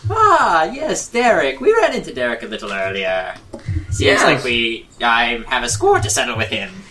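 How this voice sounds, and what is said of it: Deliberately bad put-on Irish accent. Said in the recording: “my voice is that it's an Irish accent because it's easier on my voice, but also it's a terrible Irish accent”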